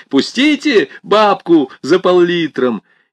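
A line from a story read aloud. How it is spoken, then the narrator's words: Young fresh shout. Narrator (Russian): Один из них закричал молодым, свежим голосом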